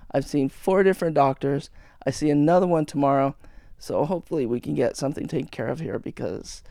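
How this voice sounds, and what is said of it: Strained, failing voice. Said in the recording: “you hear my voice going again because I have been having problems with my throat ... apologize for my voice being rather messed up”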